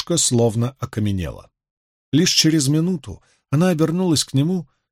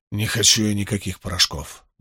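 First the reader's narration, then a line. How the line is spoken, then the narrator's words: Curt mutter. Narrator (Russian): буркнул он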